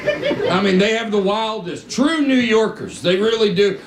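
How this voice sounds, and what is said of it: Southern American accent. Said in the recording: “New Yorkers have a wild reaction to my accent... Southerners, we visit New York... this guy sounds like Huckleberry Finn”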